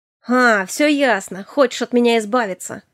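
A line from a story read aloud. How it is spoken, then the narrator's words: Scoffing. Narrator (Russian): хмыкнул он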